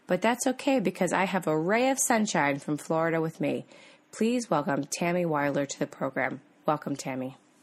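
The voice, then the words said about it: Slightly off, sick-sounding voice. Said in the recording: “having a little bit of a funny voice today. I'm feeling a little bit under the weather again”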